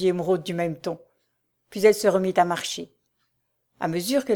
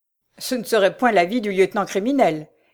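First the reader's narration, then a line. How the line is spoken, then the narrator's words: Laughing. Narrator (French): dit Raoul en riant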